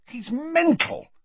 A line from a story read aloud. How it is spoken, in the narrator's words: said furiously